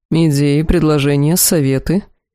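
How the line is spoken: Grim inquiry. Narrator (Russian): мрачно поинтересовался Эл-Ахар

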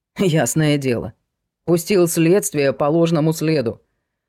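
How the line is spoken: Angry snort. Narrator (Russian): фыркнул полковник со злостью

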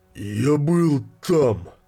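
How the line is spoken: Exhausted growling whisper. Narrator (Russian): попытался прореветь Тра, но обессиленные слова прозвучали рычащим шепотом

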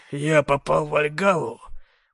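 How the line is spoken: Groaned. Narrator (Russian): простонал Дред

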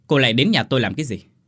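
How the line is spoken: Irritated shout. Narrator (Vietnamese): Sẵn bực trong người, hắn quát

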